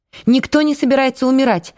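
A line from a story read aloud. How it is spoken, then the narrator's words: Sharp objection. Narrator (Russian): резко возразила Майя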